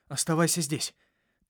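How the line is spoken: Hurried speech. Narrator (Russian): торопливо проговорил я

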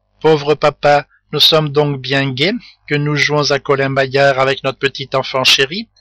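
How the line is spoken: Sneering. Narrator (French): dit Tortillard en ricanant

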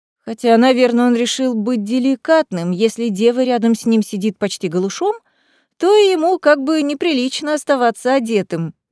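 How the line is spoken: Laughing. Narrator (Russian): засмеялась я

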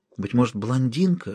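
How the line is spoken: Whisper. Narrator (Russian): шепнул доктор

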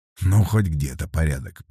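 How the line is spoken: Muttering. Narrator (Russian): пробормотал Вербин

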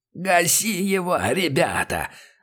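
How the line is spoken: Hoarse cry from behind. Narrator (Russian): хрипел за их спинами барыга

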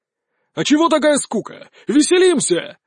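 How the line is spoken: Shouting. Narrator (Russian): закричал Влад

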